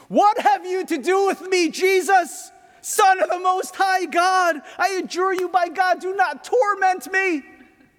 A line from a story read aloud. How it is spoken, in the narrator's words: I found myself screaming